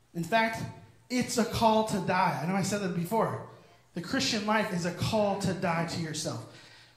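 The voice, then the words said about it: Yelling, intense preaching. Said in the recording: “you're yelling at us? ... Calm down.”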